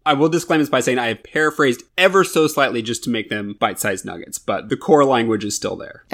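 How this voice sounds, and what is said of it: Usual voice. Nothing is said of it.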